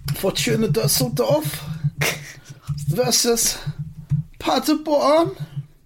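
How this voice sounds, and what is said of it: Mock German accent. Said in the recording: “is that your German accent? ... But it's not a real German accent.”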